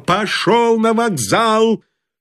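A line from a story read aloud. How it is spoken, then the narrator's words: Shouting with full force. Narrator (Russian): Толмудовский что есть силы, закричал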